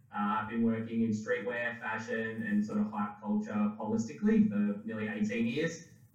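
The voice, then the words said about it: Australian accent. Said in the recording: “I'm an artist and designer from Melbourne, Australia, as you can probably tell from the accent”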